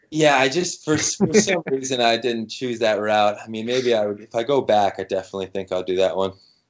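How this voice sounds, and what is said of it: American English accent. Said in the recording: “they heard my accent. They'd be like, okay, now he's American for sure.”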